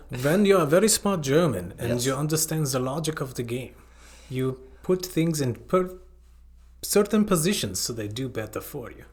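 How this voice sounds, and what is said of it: Poor put-on German accent. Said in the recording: “That was a really bad accent”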